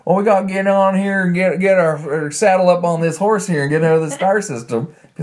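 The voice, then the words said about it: Put-on Southern US drawl. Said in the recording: “it's the Canadian equivalent of, like, the Alabama accent ... Why does he sound like that?”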